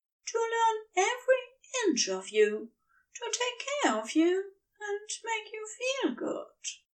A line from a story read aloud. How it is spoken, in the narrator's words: he said quietly